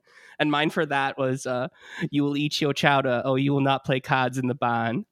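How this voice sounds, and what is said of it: Put-on Massachusetts accent. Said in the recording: “I used to be pretty good at doing the Massachusetts accent.”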